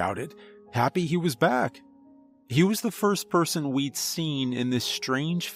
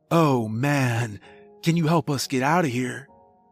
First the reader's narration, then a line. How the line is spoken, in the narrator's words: Noel asked